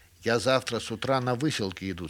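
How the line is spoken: Plain. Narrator (Russian): сказал кандид

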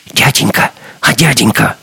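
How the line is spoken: Whisper. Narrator (Russian): услышал он чей-то шепот

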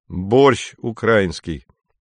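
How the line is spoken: Sad. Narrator (Russian): грустно сказал Женя

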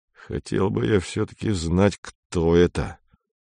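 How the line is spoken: Through gritted teeth. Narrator (Russian): сказал диспетчер сквозь зубы

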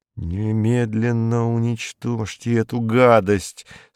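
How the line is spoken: Through gritted teeth. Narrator (Russian): сказал он сквозь зубы

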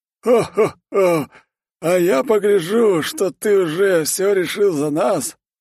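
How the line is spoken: Booming laughter. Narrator (Russian): захохотал

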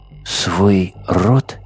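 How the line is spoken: Quiet. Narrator (Russian): тихо сказала белка

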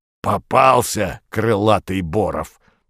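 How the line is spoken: Hoarse wheeze. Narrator (Russian): просипел двуглавый Юл

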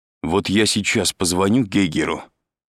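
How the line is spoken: Angry. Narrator (Russian): сказал Андрей зло

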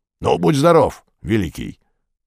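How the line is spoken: Growling. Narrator (Russian): прорычал двуглавый Юл

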